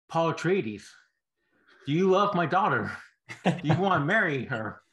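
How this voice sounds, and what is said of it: Christopher Walken impression. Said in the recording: “I can't do a Christopher Walken impression. I've tried for the past month in my head. I keep hearing him go”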